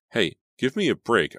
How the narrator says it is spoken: I cried

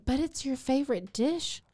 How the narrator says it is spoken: she exclaimed

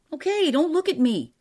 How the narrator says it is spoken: cried Eccles

